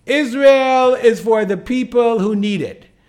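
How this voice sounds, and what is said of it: Put-on New York accent. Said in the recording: “in her New York accent”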